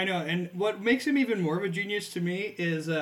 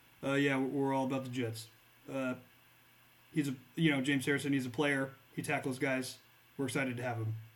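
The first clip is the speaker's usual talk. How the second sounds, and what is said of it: Bill Belichick impression. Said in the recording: “That was my Bill Belichick impression.”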